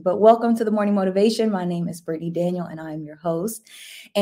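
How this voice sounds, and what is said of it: Raspy voice. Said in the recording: “I barely use my voice before I get on here. So it's always a little raspy”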